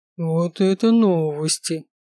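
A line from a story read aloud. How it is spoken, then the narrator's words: Drawling. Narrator (Russian): протянул Рич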